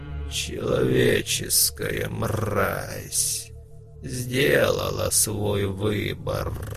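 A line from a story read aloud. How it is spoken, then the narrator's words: Hoarse howl. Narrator (Russian): Варг залился хриплым воем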